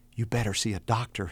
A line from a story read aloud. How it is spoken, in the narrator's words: he whispered